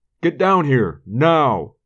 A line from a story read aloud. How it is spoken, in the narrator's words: yelled upstairs